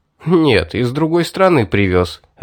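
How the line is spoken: Laughing. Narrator (Russian): рассмеялся я

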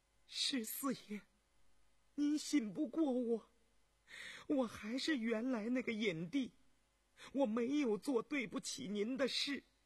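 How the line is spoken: Soft trembling frightened reproach. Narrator (Chinese): 乔眼帝惊恐哀伤，轻轻地颤声嗔道

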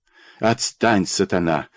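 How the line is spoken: Hissing. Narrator (Russian): зашипел

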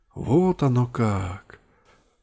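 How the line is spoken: Upset, tearful drawl. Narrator (Russian): Расстроенно протянула сестра, у которой из глаз вновь закапали слезы

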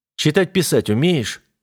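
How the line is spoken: Plain. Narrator (Russian): спросил я

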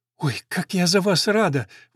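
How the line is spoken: Exclaimed. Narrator (Russian): воскликнула

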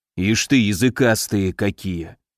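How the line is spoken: Barely audible grumble. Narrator (Russian): Едва слышно проворчал шеф

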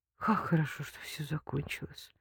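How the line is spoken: Mumble. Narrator (Russian): пробормотала Лика

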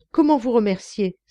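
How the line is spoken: Young man's exclamation. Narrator (French): s'exclama le jeune homme

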